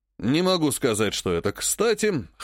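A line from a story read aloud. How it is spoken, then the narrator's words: Wry grunt. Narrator (Russian): хмыкнул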